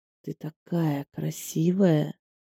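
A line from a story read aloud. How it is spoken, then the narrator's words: Almost purring voice. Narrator (Russian): почти мурчащим голосом сказал Алексей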